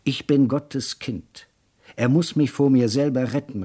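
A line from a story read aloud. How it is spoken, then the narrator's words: Calling out while running. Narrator (German): rief er, als er im Schatten der Bäume die Straßen entlang lief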